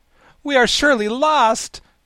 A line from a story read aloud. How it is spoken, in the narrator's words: cried Ginger in despair